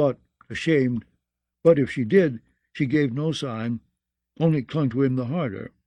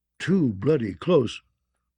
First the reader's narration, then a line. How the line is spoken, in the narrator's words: grumbled old Tattersalt